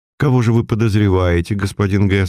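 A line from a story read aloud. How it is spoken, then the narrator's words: Plain question. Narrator (Russian): спросил я ювелира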